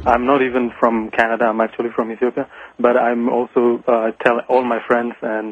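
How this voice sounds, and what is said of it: Slight French accent. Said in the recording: “You sound a slight French accent.”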